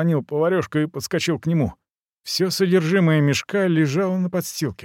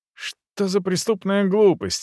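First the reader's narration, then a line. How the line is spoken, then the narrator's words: Exclamation. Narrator (Russian): воскликнул я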